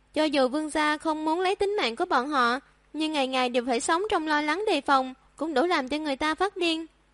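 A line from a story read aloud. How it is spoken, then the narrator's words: Long sigh. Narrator (Vietnamese): Chu Phi thở dài thường thượt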